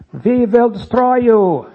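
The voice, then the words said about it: Poor put-on Prussian accent. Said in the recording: “Is that a Prussian accent? I don't know. It's terrible.”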